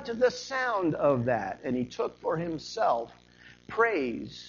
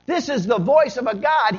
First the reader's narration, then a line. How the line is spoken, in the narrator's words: the people called out